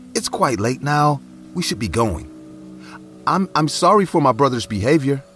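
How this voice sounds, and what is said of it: Fumbling, faltering voice. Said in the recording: “in a fumbled voice”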